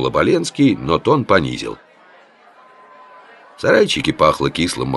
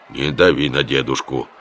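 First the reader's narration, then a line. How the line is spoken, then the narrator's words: Stern warning. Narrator (Russian): строго предупредил Лев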